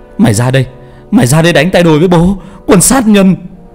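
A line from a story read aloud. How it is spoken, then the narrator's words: Furious shriek. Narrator (Vietnamese): Bảo rít lên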